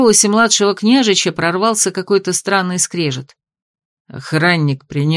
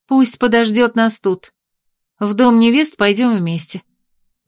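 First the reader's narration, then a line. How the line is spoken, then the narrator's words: Gentle command. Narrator (Russian): мягко приказала княгиня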